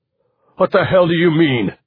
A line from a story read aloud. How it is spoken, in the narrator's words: Rick Delancey shouted